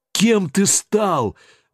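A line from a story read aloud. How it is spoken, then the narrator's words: Sorrowful exclamation. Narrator (Russian): горестно воскликнул мой несуществующий брат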